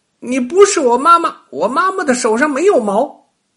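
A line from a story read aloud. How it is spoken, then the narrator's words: Frightened child crying out. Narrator (Chinese): 小娃娃吓得叫了起来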